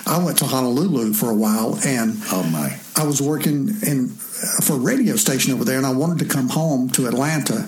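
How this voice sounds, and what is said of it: Southern US accent. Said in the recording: “they loved my southern accent”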